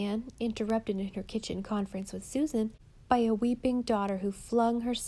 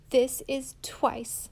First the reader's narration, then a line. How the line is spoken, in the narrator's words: said Diana bitterly, still smarting under the sense of betrayal and loss